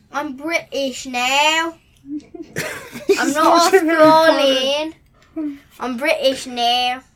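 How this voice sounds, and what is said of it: Put-on British accent. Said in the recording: “Because I sound more British ... She figured out her accent ... If they need a whiny girl”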